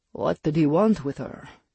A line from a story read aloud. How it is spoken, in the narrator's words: Lucien asked